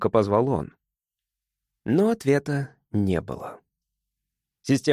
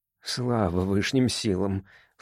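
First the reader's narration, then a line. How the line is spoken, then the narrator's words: Low-voiced muttering. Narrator (Russian): вполголоса пробормотал мистер Октопоц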